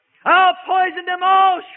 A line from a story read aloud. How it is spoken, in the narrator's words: shrieked Satan